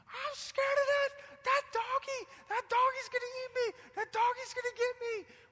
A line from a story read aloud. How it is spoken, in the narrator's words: Abraham's screaming